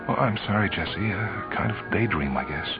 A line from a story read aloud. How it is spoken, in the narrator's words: knew that her voice sounded strange as she said